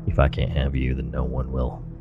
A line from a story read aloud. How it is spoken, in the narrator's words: he flatly said